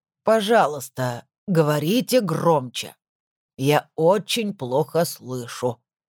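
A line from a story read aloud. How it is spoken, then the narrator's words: Creaky voice. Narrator (Russian): произнес скрипучим голосом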